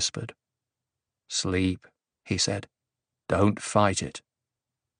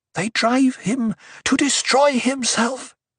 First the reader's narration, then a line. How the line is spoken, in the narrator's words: she gasped